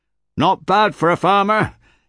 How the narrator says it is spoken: yelled Gilad

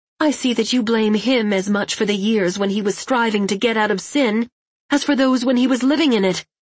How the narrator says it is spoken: Her face rigid, Kristen replied harshly

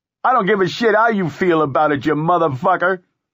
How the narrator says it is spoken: Freddy shouted, … the man was almost crying

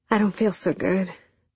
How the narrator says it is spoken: I muttered in a shaky voice that betrayed my cascading anxiety

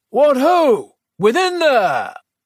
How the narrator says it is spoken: She also called out in a stentorian voice

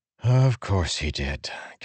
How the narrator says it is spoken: Kaladin said with a sigh

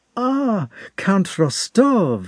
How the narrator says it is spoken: exclaimed Pierre joyfully

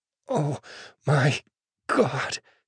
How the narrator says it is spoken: she pants

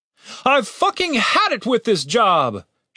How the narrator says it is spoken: shouted the leader

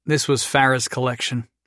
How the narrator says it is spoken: Jason said sadly

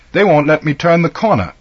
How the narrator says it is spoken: exclaimed

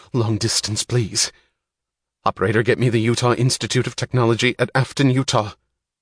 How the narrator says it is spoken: her voice saying with trembling urgency

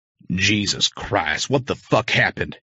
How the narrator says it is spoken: He snapped

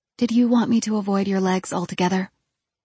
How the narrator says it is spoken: I quietly asked him

